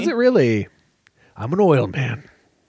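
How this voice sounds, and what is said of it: Imitates a movie character's voice. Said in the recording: “you quoting that movie... Good impression.”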